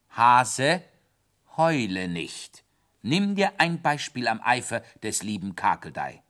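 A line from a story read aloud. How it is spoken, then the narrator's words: Stern. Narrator (German): sagte streng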